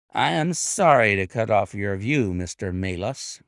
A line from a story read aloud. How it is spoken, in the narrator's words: said he